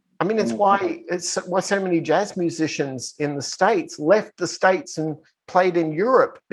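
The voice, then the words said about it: Australian accent. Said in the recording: “he sounds like Crocodile Dundee ... they want to hear my accent”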